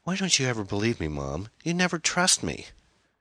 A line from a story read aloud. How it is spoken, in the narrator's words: after a long sigh, she said